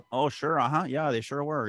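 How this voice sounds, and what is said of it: Imperfect put-on Fargo accent. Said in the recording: “The accents were good in Fargo though... one of the other accents I can get away with. It's not very good”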